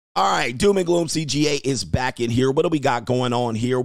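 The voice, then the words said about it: Voice slightly affected by illness. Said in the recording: “I thought I had an oncoming flu episode coming ... my voice is a little affected”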